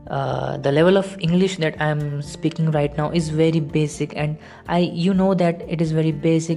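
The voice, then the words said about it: Non-native Hindi-speaker English accent. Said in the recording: “English is my second language ... my accent is not very good”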